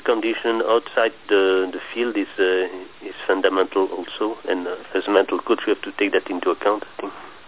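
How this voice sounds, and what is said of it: French accent. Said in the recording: “I just didn't catch your accent there. Now I got it. ... you got such a beautiful French accent.”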